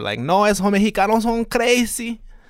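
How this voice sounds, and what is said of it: Latino accent that sounds Cuban. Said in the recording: “all my Latino impersonations outside of Mexico sound like an offensive Cuban person”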